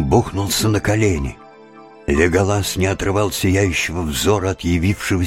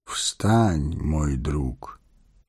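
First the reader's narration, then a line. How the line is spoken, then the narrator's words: Gentle, affectionate. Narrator (Russian): ласково сказал он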